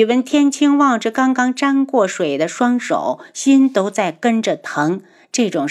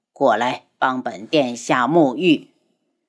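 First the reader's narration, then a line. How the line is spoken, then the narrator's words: Cold. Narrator (Chinese): 冷声道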